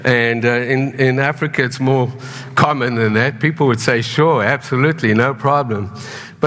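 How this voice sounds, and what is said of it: South African accent. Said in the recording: “when you come with a weird accent ... being a good South African”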